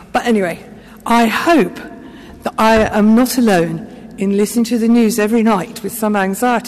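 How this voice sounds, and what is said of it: Unsteady voice from chest illness. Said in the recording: “my voice is a bit unpredictable as my chest is not well”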